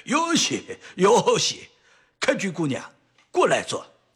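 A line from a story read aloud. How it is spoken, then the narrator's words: Happy, smiling. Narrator (Chinese): 松岗吉岛高兴地 一笑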